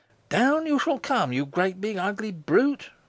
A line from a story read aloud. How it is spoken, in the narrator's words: cried Morris aloud, with something of that passion which swept the Parisian mob against the walls of the Bastille